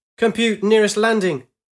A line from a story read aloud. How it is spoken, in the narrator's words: she shouted